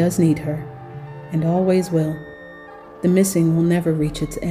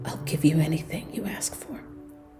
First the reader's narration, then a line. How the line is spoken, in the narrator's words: he whispers, tears in his eyes